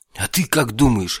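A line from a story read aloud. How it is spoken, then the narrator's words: Irritated bark. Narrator (Russian): раздраженно рявкнул я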